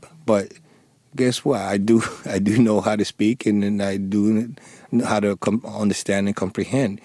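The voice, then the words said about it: Thick non-native accent. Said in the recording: “I still struggle with my accent. And sometimes, I don't know if you could tell now, I do have a thick accent”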